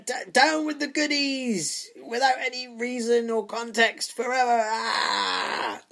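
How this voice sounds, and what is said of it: Mock impression of a terrorist. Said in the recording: “I'll try and do an impression ... let's put ourselves in the mindset of our enemy, the common or garden terrorist”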